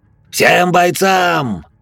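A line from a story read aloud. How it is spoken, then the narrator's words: Furious growl, almost shouting. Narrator (Russian): С неописуемой яростью на лице и в душе рычал, при этом чуть ли не кричал Серебряный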